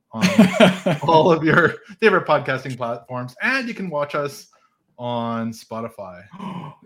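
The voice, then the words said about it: Put-on radio announcer voice. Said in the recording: “I'm trying to use my radio voice here”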